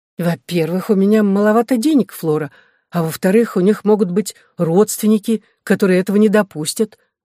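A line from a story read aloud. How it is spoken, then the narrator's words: Plain. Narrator (Russian): ответила я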